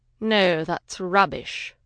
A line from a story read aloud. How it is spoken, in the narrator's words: Warwick murmured